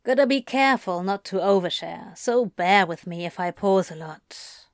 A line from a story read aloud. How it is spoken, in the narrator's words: he sighed